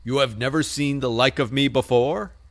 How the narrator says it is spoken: exclaimed the spirit

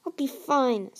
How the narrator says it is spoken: Tsunami said through gritted teeth

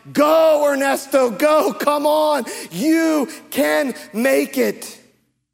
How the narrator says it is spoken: The lepers start shouting

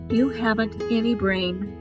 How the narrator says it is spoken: said Rabbit kindly

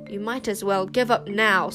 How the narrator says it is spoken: spat Queen Sycorax

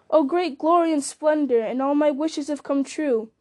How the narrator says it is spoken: he laughed aloud for sheer delight, and cried

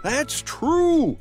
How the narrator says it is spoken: shouted the seventh man

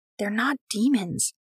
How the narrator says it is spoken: whisper

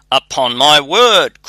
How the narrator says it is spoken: cried the miller

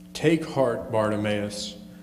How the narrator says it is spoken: disciple said

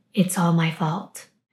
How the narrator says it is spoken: Nguyen whisper under his breath

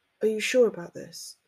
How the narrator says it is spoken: asked in a whisper

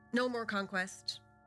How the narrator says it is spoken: Brez replies curtly

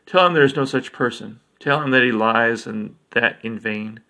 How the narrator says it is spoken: directed Thender coldly

